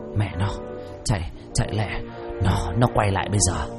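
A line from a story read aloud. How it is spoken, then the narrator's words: Frightened, broken whisper. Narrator (Vietnamese): Tư Huyền mặt sợ hãi thấy rõ, thều thào nói chẳng thành câu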